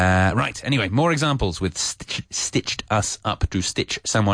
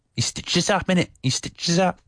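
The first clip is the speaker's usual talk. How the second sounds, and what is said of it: Imitated Cockney accent, admittedly bad. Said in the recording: “In the Cockney, you say ... my terrible Cockney accent. My accent is not naturally Cockney.”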